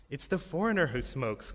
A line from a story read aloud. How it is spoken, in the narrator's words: Kamal said